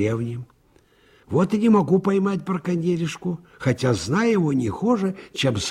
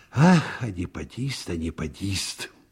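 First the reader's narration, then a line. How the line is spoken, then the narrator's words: Barely audible. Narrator (Russian): чуть слышно сказал участковый Аницкин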